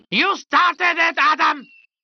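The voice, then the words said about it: Screaming angrily. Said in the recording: “Why are you screaming?”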